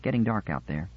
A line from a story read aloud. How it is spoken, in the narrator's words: said